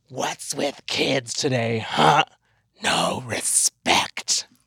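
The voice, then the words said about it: Bad Freddy Krueger character voice. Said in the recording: “terrible Freddy Krueger impersonation ... Horrible”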